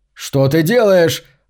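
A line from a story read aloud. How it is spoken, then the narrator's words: Terrified scream. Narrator (Russian): завопил Макс в крайней степени страха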